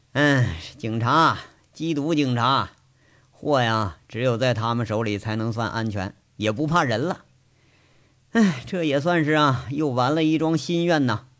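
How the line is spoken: Sighing, reflective. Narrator (Chinese): 杨伟感叹着说着

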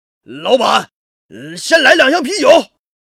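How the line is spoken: Men's hearty shout. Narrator (Chinese): 一群光着膀子的大汉 冲着店里豪爽的喊道

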